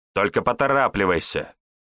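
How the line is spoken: Barked reply, woman. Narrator (Russian): Рявкнула в ответ женщина

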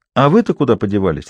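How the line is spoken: Sharp question. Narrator (Russian): резко спросил

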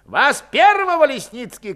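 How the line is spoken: Young officer shouting. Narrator (Russian): крикнул молодой, безусый сотник

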